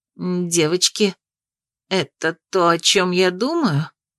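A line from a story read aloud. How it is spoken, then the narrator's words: Trembling voice question. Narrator (Russian): спросила дрогнувшим голосом Анатрана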